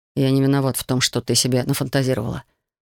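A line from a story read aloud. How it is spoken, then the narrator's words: Muttering. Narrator (Russian): пробормотал художник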